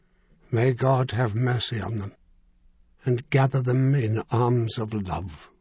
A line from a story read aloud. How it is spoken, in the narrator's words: he said softly